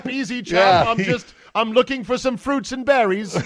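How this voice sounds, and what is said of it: Put-on English accent. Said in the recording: “What if the Bigfoot could talk and he had an English accent?”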